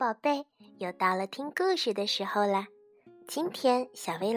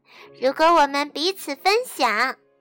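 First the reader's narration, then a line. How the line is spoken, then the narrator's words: Loud shouting. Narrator (Chinese): 玛尼和娜娜大声喊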